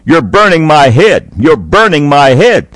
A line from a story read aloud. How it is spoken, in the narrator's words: shouting